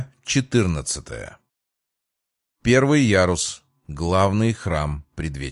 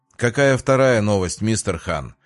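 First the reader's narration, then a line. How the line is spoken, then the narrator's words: Lazy question, big man. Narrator (Russian): лениво спросил крупный мужик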